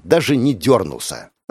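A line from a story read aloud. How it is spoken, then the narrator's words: Disappointed breathless girl. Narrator (Russian): разочарованно выдохнула девушка, восстанавливая дыхание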